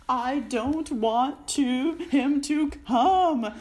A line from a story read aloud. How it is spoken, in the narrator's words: Dudley yelled with huge pretend sobs